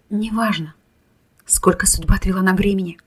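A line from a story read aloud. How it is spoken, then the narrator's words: Whispering. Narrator (Russian): прошептала Кира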